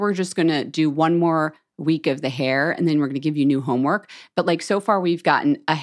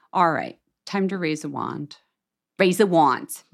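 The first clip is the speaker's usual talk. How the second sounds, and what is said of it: Put-on Philadelphia accent. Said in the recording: “I'm doing like Philly accents.”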